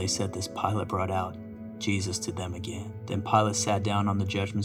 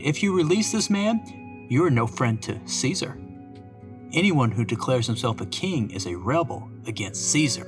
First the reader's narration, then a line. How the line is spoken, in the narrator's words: the Jewish leader shouted